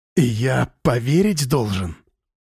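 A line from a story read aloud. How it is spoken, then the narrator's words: Through gritted teeth. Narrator (Russian): процедил сквозь зубы Слава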